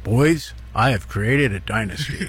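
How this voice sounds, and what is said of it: Imitates another person's voice. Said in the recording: “you do a pretty good impression of your father there. That's not too bad.”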